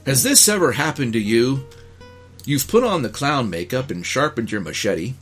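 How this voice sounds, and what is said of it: Put-on character reading voice. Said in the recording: “put on my Larco reading voice.”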